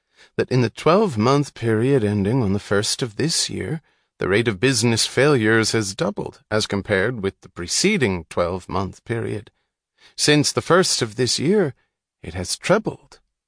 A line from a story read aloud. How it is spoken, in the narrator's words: primly, in a statistical tone of voice